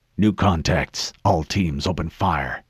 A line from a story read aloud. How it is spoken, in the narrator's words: barked